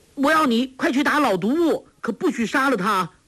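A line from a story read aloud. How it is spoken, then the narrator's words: Calling out. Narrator (Chinese): 黄蓉叫道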